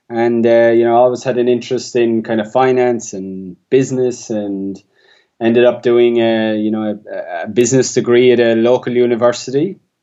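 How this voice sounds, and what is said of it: Rural Irish accent. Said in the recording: “I grew up in rural Ireland, if the accent hasn't given it away already”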